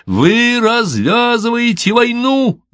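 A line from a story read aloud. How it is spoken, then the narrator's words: Shouting. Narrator (Russian): заорал я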